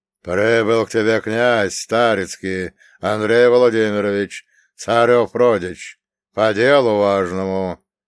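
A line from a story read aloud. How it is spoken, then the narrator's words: Old man's booming drone. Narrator (Russian): прогудел дед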